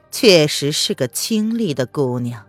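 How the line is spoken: Calm, indifferent. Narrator (Chinese): 宣德淡淡的评价道

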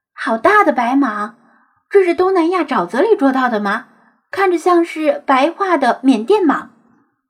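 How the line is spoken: Delighted cry. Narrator (Chinese): 女生哇的一声惊喜的叫道

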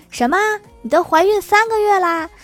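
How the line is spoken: Loud, immediate. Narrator (Chinese): 闺蜜听了，立刻大声说

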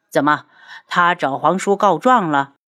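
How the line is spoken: Sneering. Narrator (Chinese): 东方顺冷笑

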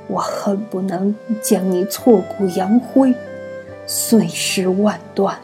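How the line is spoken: Fierce through gritted teeth. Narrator (Chinese): 柳灵玉用尽全身的力气，咬牙切齿道

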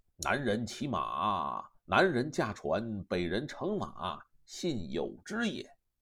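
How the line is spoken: Sighing. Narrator (Chinese): 玄德叹曰

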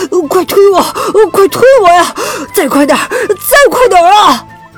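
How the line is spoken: Breathless, slipping. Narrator (Chinese): 阿黑在结冰的小路上左右打滑，气喘吁吁地说

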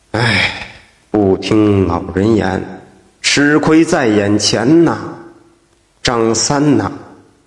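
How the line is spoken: Regretful sighing weasel. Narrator (Chinese): 保家仙黄鼠狼，摇头叹息

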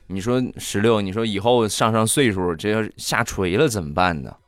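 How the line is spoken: Plain. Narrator (Chinese): 大石榴就说

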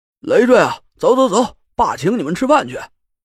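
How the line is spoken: Elated call. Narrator (Chinese): 天天祥在一边兴高采烈的喊我

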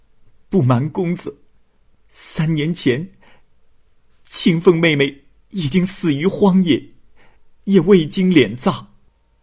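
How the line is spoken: Tearful. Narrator (Chinese): 笑儿流着泪说

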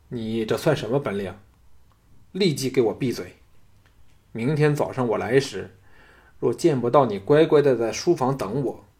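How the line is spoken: Cold. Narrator (Chinese): 项少龙冷冷的说

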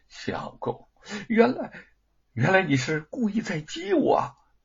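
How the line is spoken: Surprised then wryly exasperated. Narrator (Chinese): 玉凤先是诧异，然后又明白过来，有些哭笑不得

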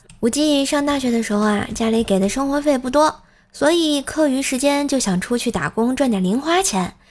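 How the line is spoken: Calm reminiscing. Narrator (Chinese): 无忌淡淡的回忆道

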